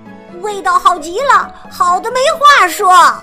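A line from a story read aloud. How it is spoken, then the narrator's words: Children shouting together. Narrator (Chinese): 三个小伙伴齐声喊道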